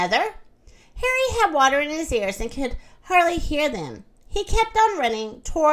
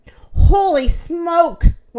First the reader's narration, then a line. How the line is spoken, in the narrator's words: one of them gasped